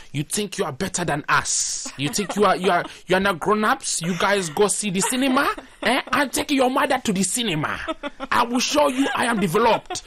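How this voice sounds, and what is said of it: Angry Nigerian accent. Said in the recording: “he sound like an angry Nigerian”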